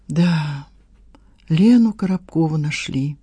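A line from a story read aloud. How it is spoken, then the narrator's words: Sighing. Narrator (Russian): вздохнула в свою очередь Надежда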